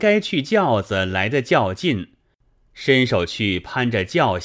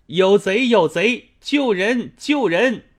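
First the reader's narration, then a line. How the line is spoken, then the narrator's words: Frantic cry for help. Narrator (Chinese): 背上如此呼叫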